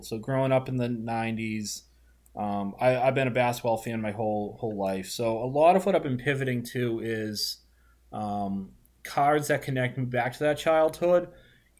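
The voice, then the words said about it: Boston accent. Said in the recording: “I'm a Boston guy, if you can't tell from my disgusting accent”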